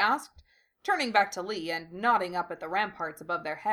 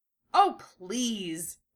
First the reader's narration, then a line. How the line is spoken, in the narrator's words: Lee snorted